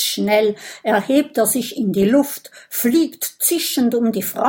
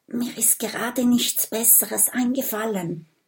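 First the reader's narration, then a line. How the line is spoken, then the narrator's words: Whispered reply. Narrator (German): flüstert Mathilda zurück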